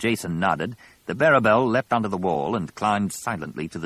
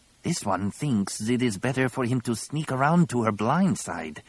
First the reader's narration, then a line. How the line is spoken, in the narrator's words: Tizar hissed